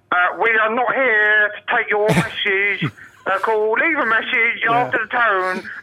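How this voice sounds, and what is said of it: Put-on Wolverhampton-Surrey accent, annoying. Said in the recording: “a really annoying voice ... Please tell me what accent that was supposed to be. ... It's Wolverhampton with a bit of Surrey.”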